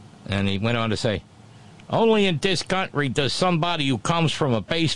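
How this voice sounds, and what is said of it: Usual voice. Nothing is said of it.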